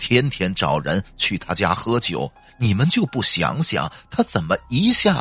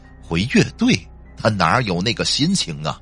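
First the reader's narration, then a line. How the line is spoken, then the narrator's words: Eerie, sly. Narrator (Chinese): 司机诡异的笑了笑，说道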